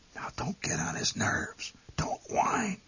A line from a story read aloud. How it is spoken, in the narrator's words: My mother whispered